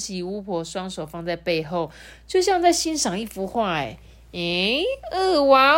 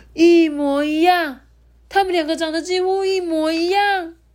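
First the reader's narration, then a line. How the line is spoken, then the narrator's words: Amazed crowd. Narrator (Chinese): 人们发出一支一阵惊叹呢，说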